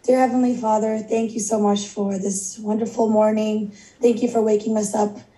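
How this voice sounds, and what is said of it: Voice in poor condition. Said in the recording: “Excuse my voice. ... This is kind of just the normal for me these days, but particularly bad this morning.”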